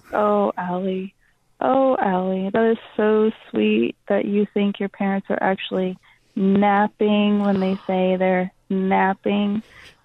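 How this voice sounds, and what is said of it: Creepy put-on voice. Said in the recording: “This is such a creepy voice.”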